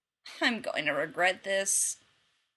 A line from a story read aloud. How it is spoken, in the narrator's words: Rodney sighed